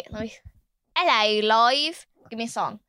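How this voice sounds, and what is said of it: Put-on British accent. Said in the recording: “That's me getting my British accent.”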